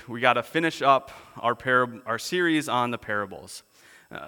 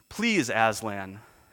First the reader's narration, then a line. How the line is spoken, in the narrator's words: said Lucy